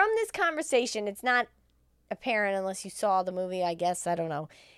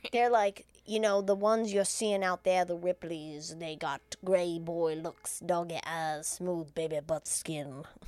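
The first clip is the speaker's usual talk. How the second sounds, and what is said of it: Imitates another person's voice. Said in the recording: “I'm doing a Morgan Freeman impersonation.”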